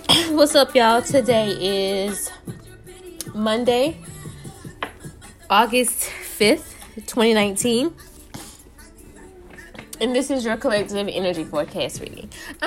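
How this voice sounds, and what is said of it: Unsteady, slightly sick-sounding voice. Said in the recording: “My voice is like... My voice is like all over the place because I just finished eating. And then it feels like I'm getting sick”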